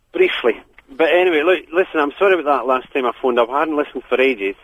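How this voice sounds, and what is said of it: Scottish-sounding accent, not English. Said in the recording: “You've lost your English accent. Have you been spending time in Scotland?”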